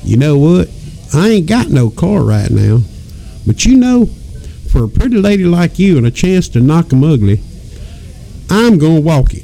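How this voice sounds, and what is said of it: Put-on deep Southern US accent. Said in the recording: “I'm going to use my deep southern accent here.”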